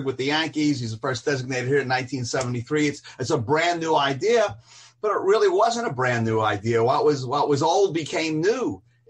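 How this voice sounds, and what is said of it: Brooklyn accent. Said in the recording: “We're both Brooklyn guys... And I have that accent still”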